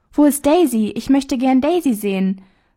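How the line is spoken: Cheerful preacher calling out. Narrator (German): So rief eine fröhliche Stimme, welche die Kleine deutlich als die des Predigers erkannte

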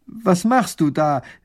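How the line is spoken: Minister calling out. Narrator (German): ruft der erste Minister

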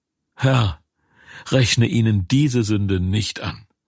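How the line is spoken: Loud cry. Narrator (German): schrie laut

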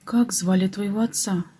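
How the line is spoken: Soft question. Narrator (Russian): мягко спросила

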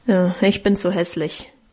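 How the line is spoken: Grumbled. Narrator (German): brummte Guste

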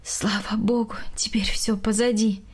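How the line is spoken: Sighing woman. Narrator (Russian): вздохнула Галина Яковлевна

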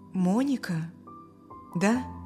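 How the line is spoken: Uncertain man. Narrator (Russian): неуверенно сказал отец Стивена

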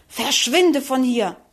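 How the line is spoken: Hissed angrily. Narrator (German): fauchte wütend

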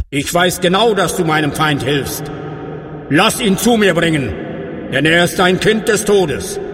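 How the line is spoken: Called out. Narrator (German): rief er

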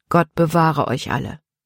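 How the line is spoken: Quiet answer. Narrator (German): antwortete Paul leise

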